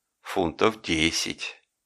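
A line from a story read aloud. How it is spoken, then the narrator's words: Quiet. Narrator (Russian): сказал тихо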